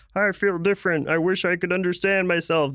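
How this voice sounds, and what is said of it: Tobey Maguire impression. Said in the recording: “That was my Tobey Maguire.”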